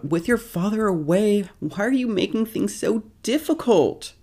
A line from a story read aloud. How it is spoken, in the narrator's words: She yells out